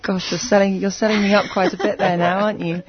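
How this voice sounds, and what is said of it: English accent. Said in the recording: “They have a very cool English accent”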